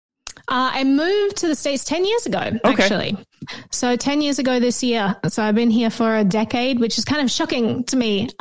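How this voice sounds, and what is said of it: Australian accent. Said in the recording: “You lived in Australia, I assume, based on the accent.”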